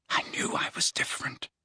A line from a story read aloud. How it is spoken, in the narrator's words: he whispered to his own quivering fingers